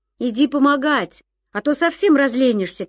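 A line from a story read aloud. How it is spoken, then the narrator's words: Shouted. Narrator (Russian): крикнул Ян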